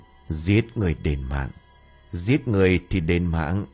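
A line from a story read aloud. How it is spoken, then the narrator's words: Deep hoarse voice. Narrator (Vietnamese): Anh ta miệng cũng mấp máy nói bằng cái giọng ồm ồm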